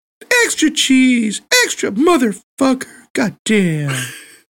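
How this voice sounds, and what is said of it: Imitates another person's voice. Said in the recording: “That's my impersonation of Bruce Pritchard doing Jim Cornette.”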